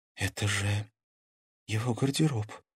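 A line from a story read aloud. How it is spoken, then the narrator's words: Frightened breathy exhale. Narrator (Russian): испуганно выдохнула Карина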